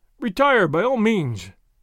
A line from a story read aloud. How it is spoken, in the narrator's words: one of his friends cried